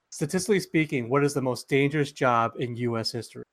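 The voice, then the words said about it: Deadpan, flat delivery. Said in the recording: “I'm gonna say my trivia question as deadpan as I possibly can”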